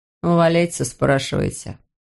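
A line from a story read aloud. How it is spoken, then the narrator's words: Curt, through teeth. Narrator (Russian): процедил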